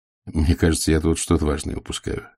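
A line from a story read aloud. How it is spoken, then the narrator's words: Plain. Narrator (Russian): сказал Ваймс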